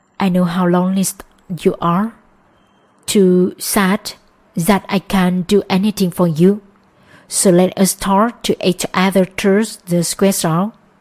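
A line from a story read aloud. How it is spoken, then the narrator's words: Whispered. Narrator (Vietnamese): Anh lắc lư người theo tiếng nhạc và thì thầm nói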